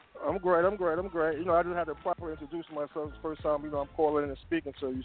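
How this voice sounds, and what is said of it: Brooklyn accent with hood twang. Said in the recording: “I should have known with the accent ... I got that little hood twang”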